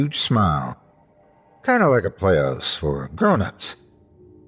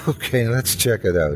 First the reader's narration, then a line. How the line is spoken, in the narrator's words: I said with a giggle